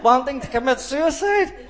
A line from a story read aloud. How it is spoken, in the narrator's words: I laughed and laughed and laughed